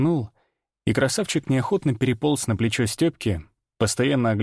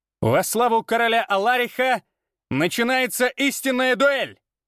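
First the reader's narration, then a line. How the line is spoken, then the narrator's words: Loud shout for all. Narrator (Russian): Прокричал так, чтобы слышали все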